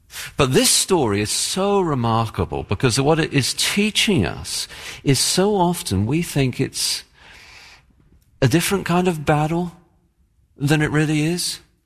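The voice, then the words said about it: English accent. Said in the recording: “I have an English accent, and I say my T's differently for Americans”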